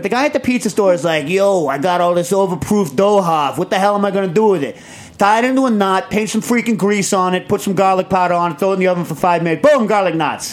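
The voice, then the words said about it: Put-on pizza-shop guy accent. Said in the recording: “A guy at a pizza store, not to use the same accent again”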